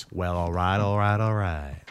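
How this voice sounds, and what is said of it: Matthew McConaughey impression. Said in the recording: “Matthew McConaughey ... Good impression.”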